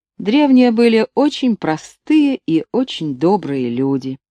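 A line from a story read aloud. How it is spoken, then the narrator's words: Plain. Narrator (Russian): сказал пилот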